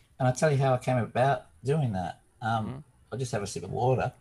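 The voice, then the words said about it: Crackly, rough voice. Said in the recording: “my voice is not usually this crackly.”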